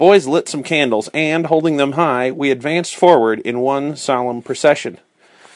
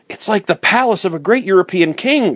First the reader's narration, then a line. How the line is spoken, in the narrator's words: cried Fritz